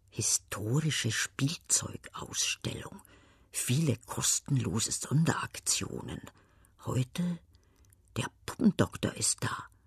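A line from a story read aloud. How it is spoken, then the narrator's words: Half-voiced murmured reading. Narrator (German): Halblaut vor sich hin murmelnd liest sie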